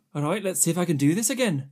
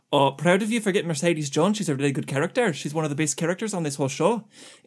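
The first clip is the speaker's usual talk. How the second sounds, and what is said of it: Attempted Irish accent. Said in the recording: “I've never really done an Irish accent before ... all you had to do was do a Scottish accent but put it more forward”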